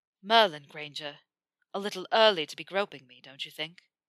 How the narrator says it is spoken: Blowing out a breath, he murmured

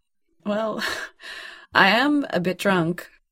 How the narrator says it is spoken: John said, laughing

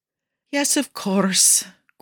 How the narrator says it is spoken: Guido says with a sigh

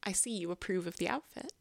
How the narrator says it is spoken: she says

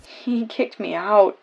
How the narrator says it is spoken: Dick whimpers

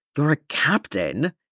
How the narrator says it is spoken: he hisses

